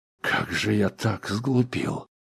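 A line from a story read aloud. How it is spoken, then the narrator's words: Rueful sigh. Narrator (Russian): сокрушенно вздохнул Сканлан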